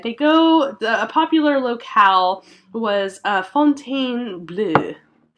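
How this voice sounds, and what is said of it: Phony French accent. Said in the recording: “my phony French accent”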